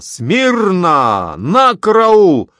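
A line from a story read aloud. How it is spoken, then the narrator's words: Barked military command. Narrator (Russian): Прозвучали слова команды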